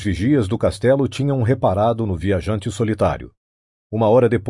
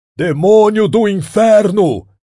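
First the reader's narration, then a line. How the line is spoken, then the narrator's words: Furious shout. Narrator (Portuguese): gritou com uma fúria em vão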